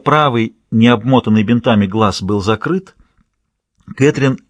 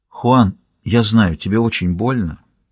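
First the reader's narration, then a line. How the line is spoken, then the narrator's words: Very quiet. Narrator (Russian): очень тихо произнес О'Нил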